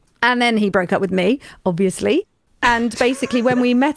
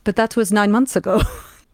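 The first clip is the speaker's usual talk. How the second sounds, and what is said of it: Put-on German accent. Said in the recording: “I'm going to do the accent ... It was the most German response.”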